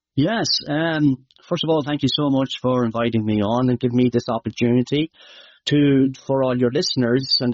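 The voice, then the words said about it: Irish Midlands accent. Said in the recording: “some of your Irish might know, my accent might be hard to understand”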